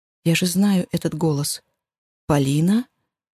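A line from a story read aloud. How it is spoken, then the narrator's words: Soft calling. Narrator (Russian): Мягко зову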